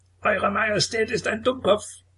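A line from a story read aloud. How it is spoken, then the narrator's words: Parrot's shrill screech. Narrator (German): kreischte der Papagei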